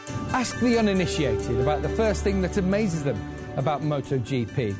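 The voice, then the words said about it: Heavy foreign accent, easy to understand. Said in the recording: “he has a bad accent, but it's easy to understand. Not bad, I mean, deep.”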